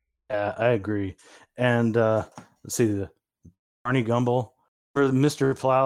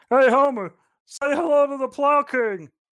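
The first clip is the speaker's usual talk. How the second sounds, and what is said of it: Cartoon character voice impression. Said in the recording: “That is a perfect impression that you do. It sounds just like him.”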